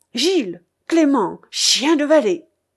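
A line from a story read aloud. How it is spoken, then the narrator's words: Furious exclamation. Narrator (French): s'écria le Normand furieux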